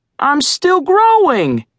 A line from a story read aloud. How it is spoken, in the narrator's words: said Screech, flapping indignantly